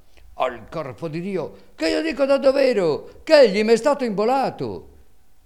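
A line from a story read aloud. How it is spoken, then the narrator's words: Shouting louder. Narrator (Italian): Calandrino gridava allora più forte e diceva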